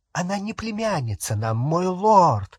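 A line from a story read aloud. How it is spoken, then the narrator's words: Exclaiming over noise. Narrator (Russian): воскликнула Беллатриса, перекрикивая веселый гам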